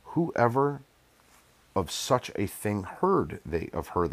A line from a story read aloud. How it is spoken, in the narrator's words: they asked